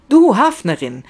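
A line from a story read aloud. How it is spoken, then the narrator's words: Sudden inspired shout. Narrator (German): schreit Anna in plötzlicher Eingebung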